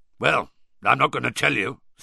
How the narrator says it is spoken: said Moody gruffly

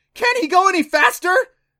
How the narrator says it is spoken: Clancy screamed

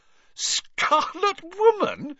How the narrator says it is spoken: she repeated, shaking with suppressed giggles

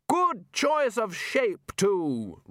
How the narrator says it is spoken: Ridcully continued loudly

